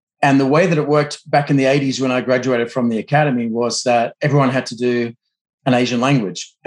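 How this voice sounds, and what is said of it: Australian accent. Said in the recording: “to explain my accent, right, I'm an American now, but I'm Australian by background”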